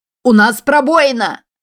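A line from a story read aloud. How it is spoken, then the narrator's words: Shouting. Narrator (Russian): закричал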